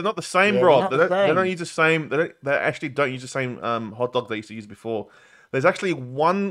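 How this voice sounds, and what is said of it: Usual voice. Nothing is said of it.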